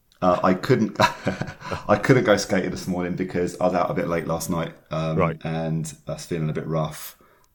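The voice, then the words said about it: Voice deeper than usual. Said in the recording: “you can probably sense my voice is a bit deeper than it normally is”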